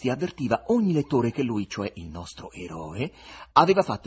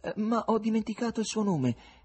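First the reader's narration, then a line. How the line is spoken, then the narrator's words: Exclaiming. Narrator (Italian): esclamò Ivan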